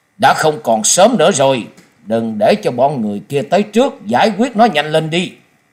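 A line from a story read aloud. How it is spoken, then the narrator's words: Harsh command, man. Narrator (Vietnamese): Một trong 2 gã đột nhiên gằn giọng ra lệnh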